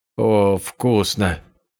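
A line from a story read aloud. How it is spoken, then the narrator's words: Euphoric moan. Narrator (Russian): простонала Сяо Яньюй с выражением эйфории на лице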